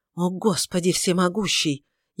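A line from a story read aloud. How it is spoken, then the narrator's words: Furious hissing whisper. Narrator (Russian): яростным шепотом прошипела она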